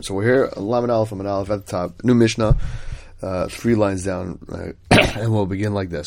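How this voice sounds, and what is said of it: Sick, under-the-weather voice. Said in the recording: “As you can probably hear in my voice, a little bit under the weather”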